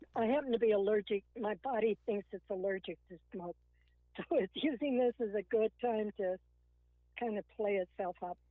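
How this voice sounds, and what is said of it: Hoarse voice. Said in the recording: “my voice is so hoarse”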